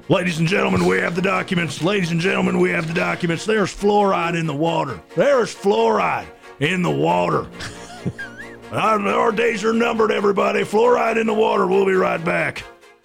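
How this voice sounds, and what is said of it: Imitates another person's voice. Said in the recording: “does a great Alex Jones imitation.”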